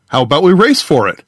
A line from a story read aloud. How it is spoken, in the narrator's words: the prime said brightly